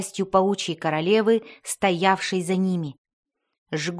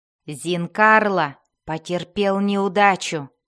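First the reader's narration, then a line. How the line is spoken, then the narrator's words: Growl. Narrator (Russian): прорычала Бриза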